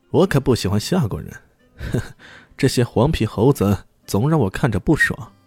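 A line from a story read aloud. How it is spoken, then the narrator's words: Laughing. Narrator (Chinese): 又笑着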